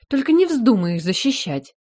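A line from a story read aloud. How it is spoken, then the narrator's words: Snorted. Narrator (Russian): фыркнула Адиль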